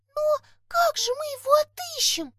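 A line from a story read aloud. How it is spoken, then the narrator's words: Thin squeak, elf girl. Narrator (Russian): тоненько пискнула эльфийка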